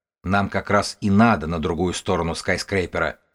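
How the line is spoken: Plain. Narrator (Russian): сказал Тим

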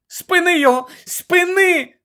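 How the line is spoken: Shout. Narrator (Ukrainian): закричала Герміона

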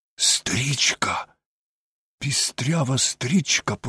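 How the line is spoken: Whisper. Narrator (Ukrainian): прошепотів Холмс

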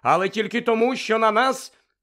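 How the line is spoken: Thunderous interrupting voice. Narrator (Ukrainian): Відьма перервала його громовим голосом

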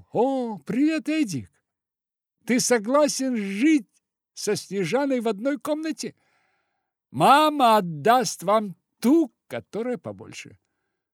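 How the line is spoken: Loud and joyful. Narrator (Russian): Венька громко и радостно сказал

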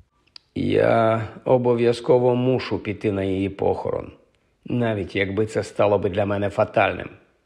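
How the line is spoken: Sad. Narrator (Ukrainian): сумно сказав Хаул

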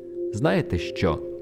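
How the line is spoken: Exclaimed. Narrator (Ukrainian): вигукнув Артур

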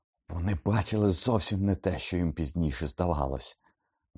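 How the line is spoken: Wild yell. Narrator (Ukrainian): заволав диким голосом Блек

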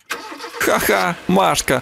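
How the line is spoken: Laughing. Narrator (Ukrainian): засміялася Наталочка

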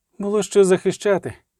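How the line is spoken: Hoarse rasp. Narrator (Ukrainian): прохрипіла тріс Мерігольд, героїня згори

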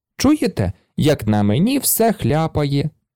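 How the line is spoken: Laughing. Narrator (Ukrainian): засміялася Пеппі

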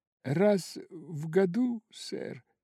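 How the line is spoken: Timid remark. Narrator (Russian): заметил робко Боб

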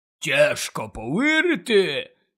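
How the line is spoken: Hoarse rasp. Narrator (Ukrainian): прохрипів Гегріт

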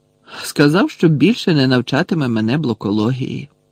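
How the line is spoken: Indifferent explanation. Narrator (Ukrainian): байдужим голосом пояснив Гаррі

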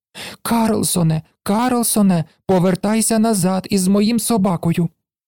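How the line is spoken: Frightened child's shout. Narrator (Ukrainian): малий злякано крикнув

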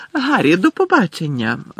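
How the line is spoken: Joyful exclamation. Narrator (Ukrainian): радісно вигукнула Ріта Скітер

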